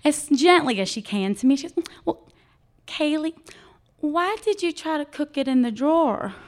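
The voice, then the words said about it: Light South Carolina Southern accent. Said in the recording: “I'm in South Carolina, so I'll put on the accent a little bit.”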